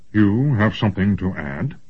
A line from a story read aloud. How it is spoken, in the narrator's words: Huss grunted